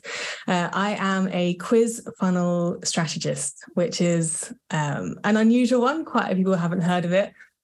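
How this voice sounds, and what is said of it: British accent. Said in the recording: “I'm from the UK, as you can probably tell from the accent.”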